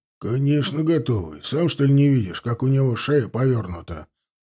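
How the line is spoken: Grumbling. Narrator (Russian): проворчал Кошелев

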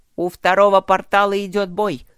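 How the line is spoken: Shout. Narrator (Russian): крикнул он своим

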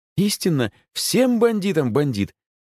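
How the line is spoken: Joyful hostess. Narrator (Russian): радостно сказала хозяйка

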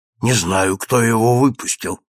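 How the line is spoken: Whisper. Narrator (Russian): шепнул мне Урбенин

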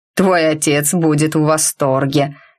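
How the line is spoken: Skeptical snort. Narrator (Russian): скептически хмыкнул шеф

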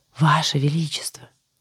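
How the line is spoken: Cheerful conspiratorial whisper. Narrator (Russian): Заговорческим шепотом, пребывая в отличном настроении, позвала она

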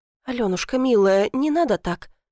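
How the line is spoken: Soft but hollow. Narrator (Russian): сказала мягко, но ее голос был пустым

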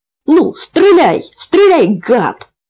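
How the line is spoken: Boy shouting. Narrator (Russian): крикнул мальчишка

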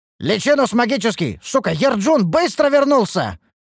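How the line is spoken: Angry lion-like shout. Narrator (Russian): прокричал рассерженным львом

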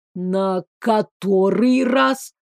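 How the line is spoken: Hissed. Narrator (Russian): Орландо зашипела

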